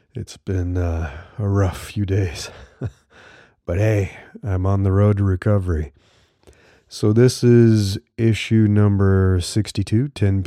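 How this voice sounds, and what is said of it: Voice sounds off from a cold. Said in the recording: “picked up a cold, so my voice is a little funny”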